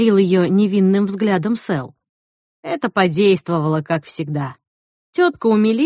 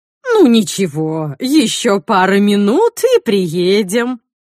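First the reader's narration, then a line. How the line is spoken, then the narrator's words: Unctuous drawl. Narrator (Russian): протянула елейным тоном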